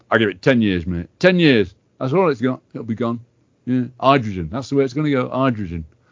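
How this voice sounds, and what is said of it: Dodgy generic put-on accent. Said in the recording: “a very dodgy accent, so forgive me, anybody listening. I do generic accents”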